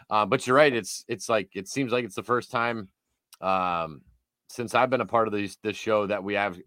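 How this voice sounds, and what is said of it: Hoarse, strained voice. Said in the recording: “little horse after the weekend ... a little hoarse, but I'm screaming and yelling ... there goes my voice”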